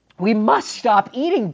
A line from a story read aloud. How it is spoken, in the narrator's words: cried Toad